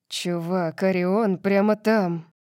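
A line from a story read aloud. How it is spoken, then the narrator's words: Hissing. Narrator (Russian): прошипел Калиб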